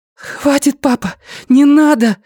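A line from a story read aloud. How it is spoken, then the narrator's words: Breathed out. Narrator (Russian): выдохнула Люми у Йоны за спиной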